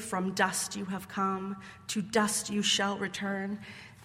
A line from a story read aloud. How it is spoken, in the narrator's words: The whispers of Ash Wednesday